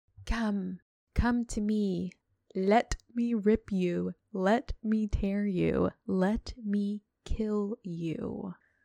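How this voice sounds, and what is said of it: Mysterious creepy voice. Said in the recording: “Jim Dale does a really good mysterious creepy voice. ... That's creepy.”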